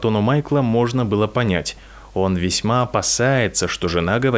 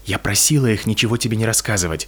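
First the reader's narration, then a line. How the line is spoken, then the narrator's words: Whisper. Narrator (Russian): прошептала Петунья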